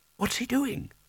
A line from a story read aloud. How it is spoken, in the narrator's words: Spelter whispered